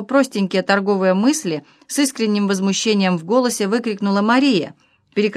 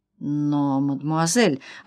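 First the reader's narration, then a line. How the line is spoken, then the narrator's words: Timid mutter. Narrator (Russian): робко пробормотал господин Хаджибек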